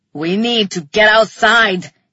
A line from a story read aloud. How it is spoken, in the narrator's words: he roared